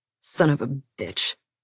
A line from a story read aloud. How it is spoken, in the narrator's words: Will muttered